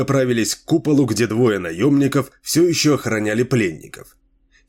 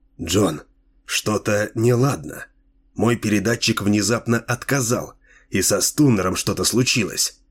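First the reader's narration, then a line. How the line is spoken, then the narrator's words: Quiet. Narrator (Russian): Рутледж тихо сказал ему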